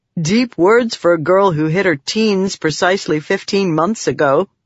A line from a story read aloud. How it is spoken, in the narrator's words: Wakim said with a chuckle